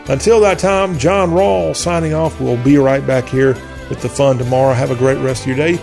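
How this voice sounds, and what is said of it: Southern American accent. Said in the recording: “Y'all Talk with a Southern accent”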